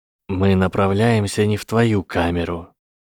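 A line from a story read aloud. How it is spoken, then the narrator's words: Automatic hiss. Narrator (Russian): прошипел Гарри автоматически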